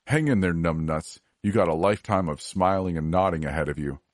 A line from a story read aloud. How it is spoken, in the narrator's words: He laughed and said